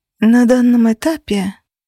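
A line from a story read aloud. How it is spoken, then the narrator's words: Thoughtful sigh. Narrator (Russian): вздохнула я, задумчиво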